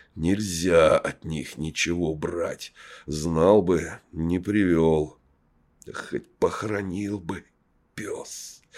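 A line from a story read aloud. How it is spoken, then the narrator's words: Hissing. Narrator (Russian): прошипел Ипат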